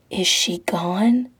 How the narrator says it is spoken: the guy whispers, breath tickling his ear

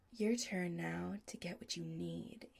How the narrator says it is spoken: he says softly

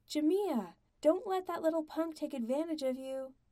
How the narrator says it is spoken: Bob called out

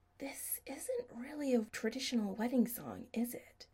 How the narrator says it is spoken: Adam whispered in Chris's ear

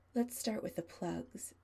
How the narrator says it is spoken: Adam murmurs, loud enough that Chris can hear him

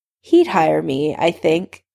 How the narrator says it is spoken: Alice laughed

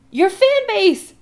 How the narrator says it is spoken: Adam says frantically

